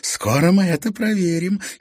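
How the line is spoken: Giggling. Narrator (Russian): хихикнула Лера

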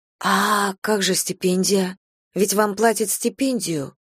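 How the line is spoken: Quiet whisper. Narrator (Russian): тихо прошептала я

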